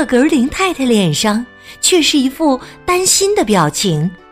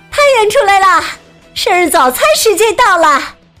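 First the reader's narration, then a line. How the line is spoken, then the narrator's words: Calling out. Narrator (Chinese): 面包师莎莉喊道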